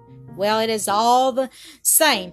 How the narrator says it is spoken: his tormentor called back with a coarse laugh

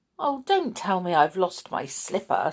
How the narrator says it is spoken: Cinderella said with a sigh

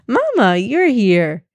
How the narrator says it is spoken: exclaimed

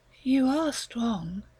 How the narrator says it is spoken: She murmured

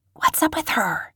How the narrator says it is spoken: one kid whispered

